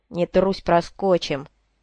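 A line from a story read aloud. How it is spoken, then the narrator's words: Through gritted teeth. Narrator (Russian): процедил Голд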